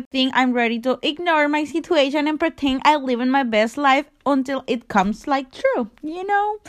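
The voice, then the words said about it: Non-native English accent. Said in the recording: “my accent and how I don't pronounce right the words”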